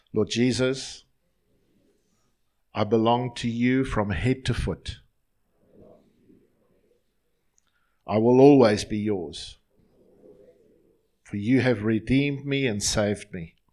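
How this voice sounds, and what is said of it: Slow, deliberate speech. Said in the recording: “I'm going to say it slowly”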